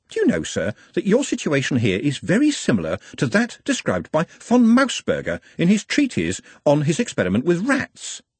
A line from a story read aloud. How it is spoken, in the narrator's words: said cheerfully